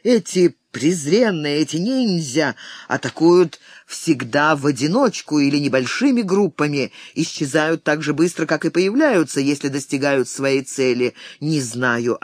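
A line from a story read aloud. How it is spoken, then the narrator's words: Plain. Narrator (Russian): ответил Ябу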